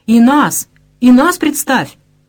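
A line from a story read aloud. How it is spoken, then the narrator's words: Cheerful group of girls. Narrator (Russian): весело затормошили Константина остальные девушки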